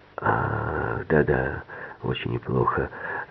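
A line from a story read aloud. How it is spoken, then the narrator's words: Whispered reply. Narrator (Russian): тоже шепотом ответил Келл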